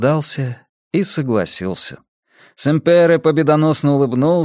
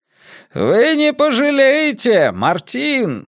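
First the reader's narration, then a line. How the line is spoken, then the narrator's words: Shouting after someone. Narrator (Russian): крикнул он мне в спину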